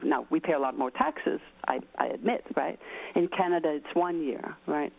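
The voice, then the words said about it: Danish accent. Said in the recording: “you can hear an accent. I'm Danish”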